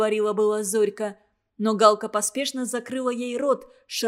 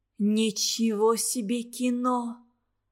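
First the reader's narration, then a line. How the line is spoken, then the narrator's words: Puzzled whisper. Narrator (Russian): озадаченно прошептала Галка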